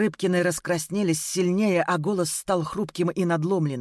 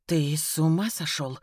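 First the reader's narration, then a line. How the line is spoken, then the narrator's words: Astonished whisper. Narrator (Russian): прошептала она пораженно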